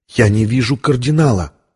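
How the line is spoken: Whispering. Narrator (Russian): прошептала Виктория

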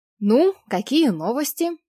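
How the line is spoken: Cheerful, slightly nervous question. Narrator (Russian): бодро, но все же со слегка проскальзывающим волнением спросил Максим

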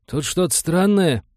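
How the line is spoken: Confused report. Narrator (Russian): растерянно доложил он

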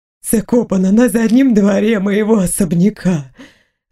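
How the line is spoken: Breathed out, criminal. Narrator (Russian): выдохнул преступник

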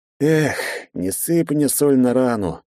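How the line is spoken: Sad sigh. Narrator (Russian): печально вздохнул напарник

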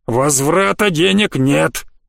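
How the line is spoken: Very loud gnome roar. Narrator (Russian): Гном проревел эти слова так громко, что содрогнулась вся очередь

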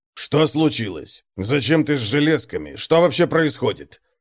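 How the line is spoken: Angry question. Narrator (Russian): сердито спросил Конрад

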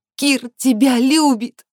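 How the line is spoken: Sobbing, bursting into tears. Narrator (Russian): Алекс всхлипывает и начинает реветь

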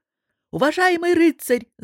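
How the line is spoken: Captain's shout. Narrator (Russian): закричал капитан

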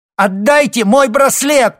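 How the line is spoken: Girl shouting. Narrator (Russian): крикнула девушка

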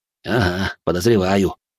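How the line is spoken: Smirking. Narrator (Russian): хмыкнул он

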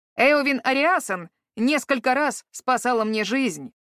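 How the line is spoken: Sharp objection. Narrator (Russian): резко возразил Гвидион

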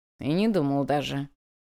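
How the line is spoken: Grumbling. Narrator (Russian): проворчал он

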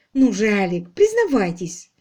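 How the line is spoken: Laughing. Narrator (Russian): Он засмеялся

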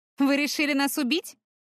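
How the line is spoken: Smirking snort. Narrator (Russian): хмыкнула Таяна

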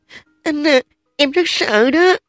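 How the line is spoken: Frightened, trembling. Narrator (Vietnamese): Trình Lâm lại càng sợ hơn nữa, run rẩy nói

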